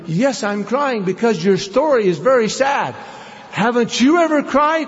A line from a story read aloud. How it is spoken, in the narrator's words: after a few taunts I said